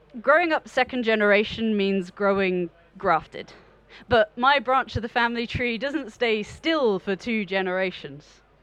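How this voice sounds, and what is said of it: British BBC-style accent. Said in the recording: “I was born with a BBC accent”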